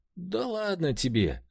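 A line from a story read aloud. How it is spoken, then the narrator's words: Laughing, holding belly. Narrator (Russian): рассмеялась, схватившись за живот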